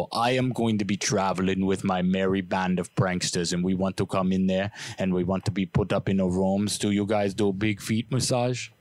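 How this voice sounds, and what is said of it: Put-on foreign accent on prank call. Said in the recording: “I didn't even mean to do that accent. I just kind of melted into it.”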